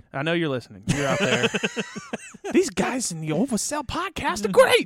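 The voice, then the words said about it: Imitates another person's voice. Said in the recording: “my best Paul Heyman impression”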